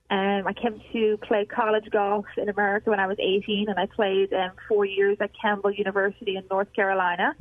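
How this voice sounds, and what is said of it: Irish accent. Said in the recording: “you can probably hear the accent. So I'm not from America, and I grew up playing golf in Ireland.”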